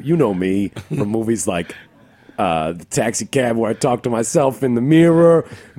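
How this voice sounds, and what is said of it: Robert De Niro impression. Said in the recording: “it's me, Robert De Niro... Me, Robert De Niro”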